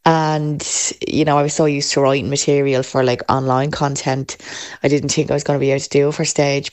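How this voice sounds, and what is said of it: Dublin Irish accent. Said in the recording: “I love the Dublin accent.”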